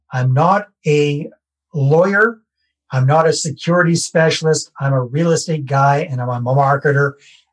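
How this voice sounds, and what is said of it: Canadian accent. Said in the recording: “you also probably heard from my accent. I live in Canada”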